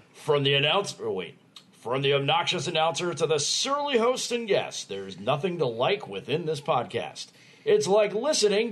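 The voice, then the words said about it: Exaggerated announcer voice. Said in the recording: “you say I should do this in the announcer voice”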